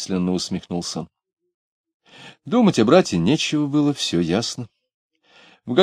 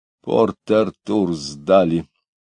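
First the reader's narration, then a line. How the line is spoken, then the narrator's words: Through gritted teeth. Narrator (Russian): сказал он сквозь зубы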